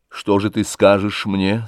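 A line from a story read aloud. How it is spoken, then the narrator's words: Trembling voice. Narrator (Russian): сказал Левин дрожащим голосом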